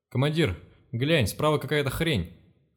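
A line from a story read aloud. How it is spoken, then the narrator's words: Shouting. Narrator (Russian): крикнул Деша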